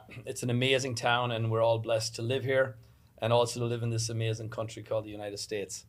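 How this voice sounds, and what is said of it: Irish accent. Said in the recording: “I have an accent and was not born in this country. I'm born in Ireland”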